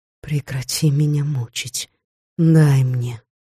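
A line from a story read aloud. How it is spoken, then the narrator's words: Muttering. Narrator (Russian): я пробормотала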